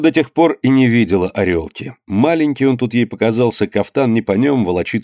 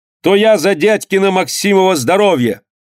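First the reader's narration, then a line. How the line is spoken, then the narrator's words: Shouted. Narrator (Russian): Данилка крикнул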